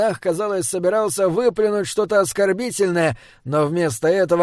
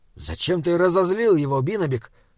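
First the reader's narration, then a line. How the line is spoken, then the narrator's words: Whisper. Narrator (Russian): шепнул Саймон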